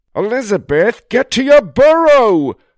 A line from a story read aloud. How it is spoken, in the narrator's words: her neighbor cried